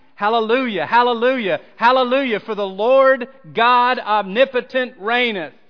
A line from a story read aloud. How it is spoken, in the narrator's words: the singers were shouting